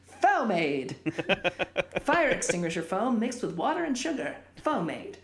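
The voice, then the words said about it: Put-on advertiser announcer accent. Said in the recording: “I don't know what that accent is that you do, but it's great. ... It's like my like advertiser accent.”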